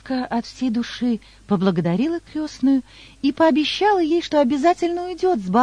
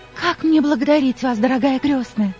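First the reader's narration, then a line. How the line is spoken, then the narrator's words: Girl exclaiming. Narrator (Russian): воскликнула девушка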